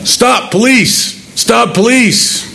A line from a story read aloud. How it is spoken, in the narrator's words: I'm yelling